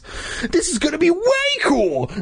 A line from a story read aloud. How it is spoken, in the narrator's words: I exclaimed